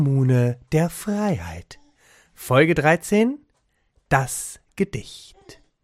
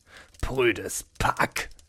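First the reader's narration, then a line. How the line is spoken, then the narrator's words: Disbelieving murmur. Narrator (German): murmelte er ungläubig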